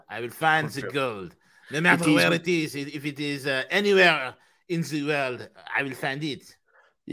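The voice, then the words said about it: Mock French accent. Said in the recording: “your French accent”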